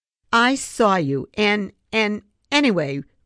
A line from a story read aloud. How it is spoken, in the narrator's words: Rex sputtered